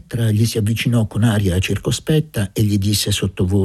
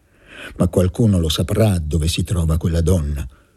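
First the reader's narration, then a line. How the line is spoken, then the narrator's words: Muffled, dull voice. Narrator (Italian): disse Luca con voce sorda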